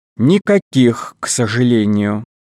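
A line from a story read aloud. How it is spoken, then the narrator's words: Sighing. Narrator (Russian): вздохнула миссис Клара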